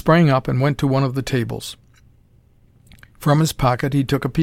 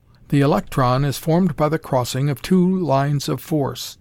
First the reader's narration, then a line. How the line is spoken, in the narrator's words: he said